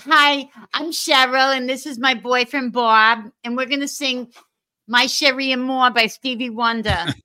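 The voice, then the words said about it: Imitated Dorchester Massachusetts woman's accent. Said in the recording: “You were imitating the Dorchester lady, man.”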